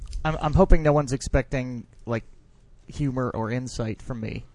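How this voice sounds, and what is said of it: Deeper-than-usual morning voice. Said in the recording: “I do have my morning voice now. I sound much deeper than I usually do.”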